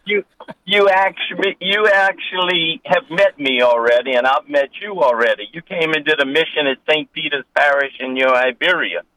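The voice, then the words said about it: Lafayette, Louisiana accent. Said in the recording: “I can hear that Lafayette accent”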